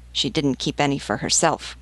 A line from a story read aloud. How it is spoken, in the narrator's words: grumbled the sergeant